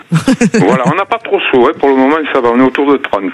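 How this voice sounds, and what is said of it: Slight southern French accent. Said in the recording (French): “on vous entend bien avec votre petit accent ... D'à côté d'Arles. Dans les Bouches-du-Rhône.”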